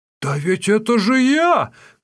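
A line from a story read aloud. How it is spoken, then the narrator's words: Indignant shout. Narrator (Russian): крикнул возмущенно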